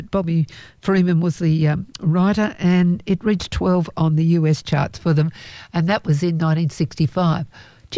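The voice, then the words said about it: Voice failing, strained. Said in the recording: “I think I'm my voice is going ... I'll try and get my voice back.”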